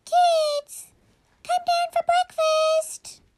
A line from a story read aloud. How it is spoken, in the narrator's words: she called out